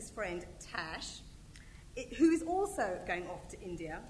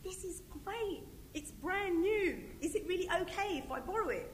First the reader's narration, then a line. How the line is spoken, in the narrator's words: exclaimed